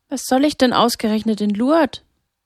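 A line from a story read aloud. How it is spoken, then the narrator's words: Skeptical hesitant question. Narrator (German): Skeptisch blickte Sarah ihn an, während sie zögernd fragte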